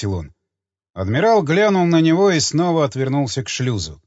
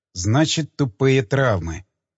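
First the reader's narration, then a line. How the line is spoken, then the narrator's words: Muttering. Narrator (Russian): пробормотал Крейн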